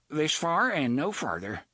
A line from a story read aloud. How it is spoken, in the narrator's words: Maud told them flatly